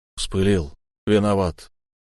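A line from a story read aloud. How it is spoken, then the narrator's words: Forced out reluctantly. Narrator (Russian): я выдавил из себя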